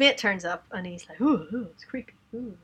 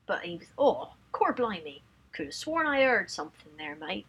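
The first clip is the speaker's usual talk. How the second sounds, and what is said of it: Put-on Cockney accent drifting Australian. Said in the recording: “why do I keep going to Australian? In a Cockney accent.”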